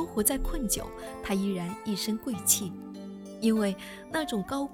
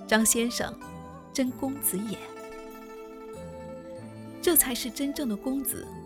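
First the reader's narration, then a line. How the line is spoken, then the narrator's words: Admiring praise. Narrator (Chinese): 张伯钧 忍不住击节赞叹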